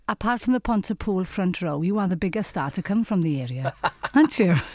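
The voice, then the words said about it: Welsh accent. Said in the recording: “a lovely Welsh accent.”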